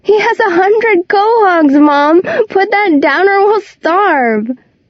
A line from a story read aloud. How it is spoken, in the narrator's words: laughs, and calls